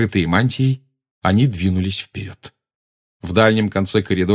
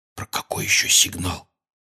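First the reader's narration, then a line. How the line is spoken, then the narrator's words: Quiet question. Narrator (Russian): тихо спросил Гарри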